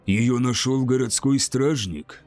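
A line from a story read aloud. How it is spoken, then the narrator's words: Harsh question. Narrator (Russian): спросил посетитель жестким тоном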